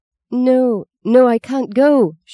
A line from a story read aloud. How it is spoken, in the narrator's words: she moaned